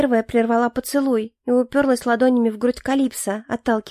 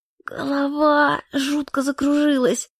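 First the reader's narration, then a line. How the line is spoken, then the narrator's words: Hoarse woman. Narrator (Russian): сиплым голосом произнесла я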